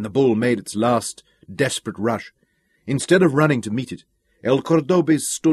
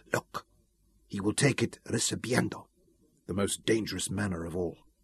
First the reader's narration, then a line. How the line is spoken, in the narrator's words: Ramon whispered to Isabella